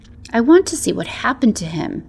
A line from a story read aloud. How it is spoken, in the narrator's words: she whispered